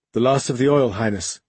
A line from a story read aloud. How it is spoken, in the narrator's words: she reported, her voice as devoid of expression as her face